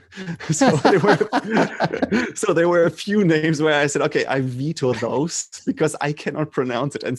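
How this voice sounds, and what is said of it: German accent in English. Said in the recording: “I can pronounce it as a German ... at least you hear that my accent, but it's not as bad as others”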